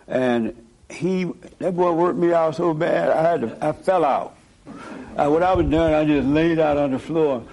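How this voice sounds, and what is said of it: Weak, worn-out voice. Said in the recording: “I haven't got my voice back yet ... my voice sounds a little weak”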